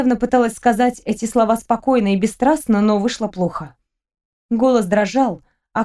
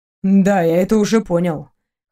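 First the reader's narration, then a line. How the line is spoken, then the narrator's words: Snorted. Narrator (Russian): хмыкнул Максим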